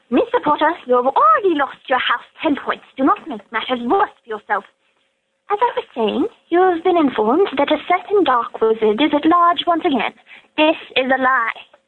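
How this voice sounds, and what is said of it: Professor Umbridge impression. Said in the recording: “I want to do an impersonation of Professor Umbridge”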